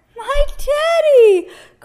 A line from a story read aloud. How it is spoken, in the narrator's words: cried Eddie